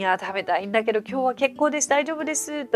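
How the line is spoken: Plain. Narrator (Japanese): と言いたい時は

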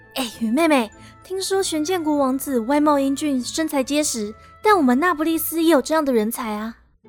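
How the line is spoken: Disappointed whisper. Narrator (Chinese): 雷可看起来有点失望，在他的耳边小声说

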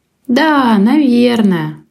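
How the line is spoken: Joyless voice. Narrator (Russian): ответил кот безрадостным голосом

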